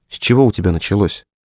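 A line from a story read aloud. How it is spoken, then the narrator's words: Quiet question. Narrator (Russian): тихо спросила Лена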